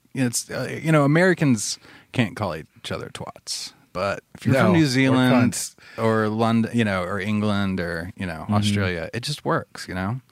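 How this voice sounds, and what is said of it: Southern US accent. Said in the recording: “My accent makes it worse. I'm from the south of the U.S. That's the worst accent”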